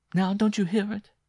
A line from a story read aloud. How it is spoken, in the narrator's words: She cried with an inarticulate gasp